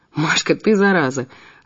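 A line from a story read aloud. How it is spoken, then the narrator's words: Laughing. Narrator (Russian): рассмеялся Ив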